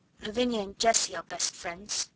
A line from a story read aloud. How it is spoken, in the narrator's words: said rather huskily